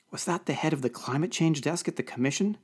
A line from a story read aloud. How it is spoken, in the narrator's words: hissed Camille